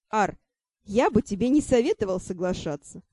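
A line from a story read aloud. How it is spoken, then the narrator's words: Snorting chuckle. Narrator (Russian): хмыкнул Шон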